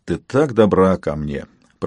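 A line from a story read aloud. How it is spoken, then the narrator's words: Muttered. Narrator (Russian): пробормотал я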